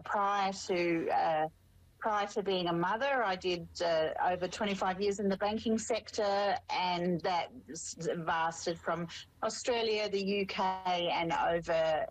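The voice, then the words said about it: Australian twang. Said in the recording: “I am Australian, if you haven't picked up the twang just yet”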